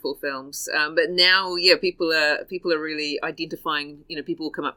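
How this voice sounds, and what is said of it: Usual voice. Nothing is said of it.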